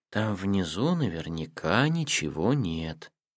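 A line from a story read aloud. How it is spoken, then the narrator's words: Feigned sleepy voice. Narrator (Russian): Матика, притворявшаяся до сих пор спящей, сонным голосом сказала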